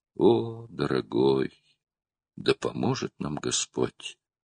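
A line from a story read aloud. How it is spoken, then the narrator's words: Tearful. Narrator (Russian): сквозь слезы сказала Тесс Кулуму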